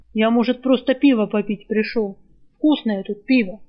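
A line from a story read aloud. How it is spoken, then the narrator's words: Nearly shouted. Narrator (Russian): Последние слова Сива почти выкрикнул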